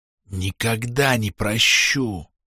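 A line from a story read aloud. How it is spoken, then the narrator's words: Ominous hiss. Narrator (Russian): шепот зловеще прошипел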